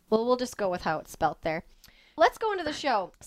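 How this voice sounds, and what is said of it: North Dakota accent. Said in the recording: “has this weird North Dakota accent thing going, and she says things like hammock.”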